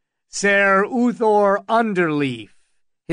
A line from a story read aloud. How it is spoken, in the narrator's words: his voice rang out